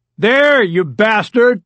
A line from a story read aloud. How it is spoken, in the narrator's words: Rebecca Klein's father shouted